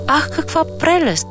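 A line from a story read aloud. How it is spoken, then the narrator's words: Stranger's exclamation. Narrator (Bulgarian): възкликна странния чужденец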